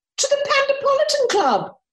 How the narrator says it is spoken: Lady FitzTulip cried

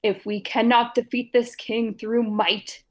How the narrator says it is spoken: he roared

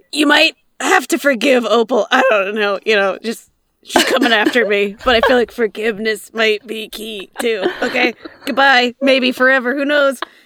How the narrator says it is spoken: She's gonna yell to Winter

